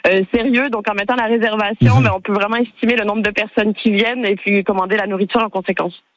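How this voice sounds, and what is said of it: Slight Québécois French accent. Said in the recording (French): “vous avez un petit accent. ... Oui, du Québec.”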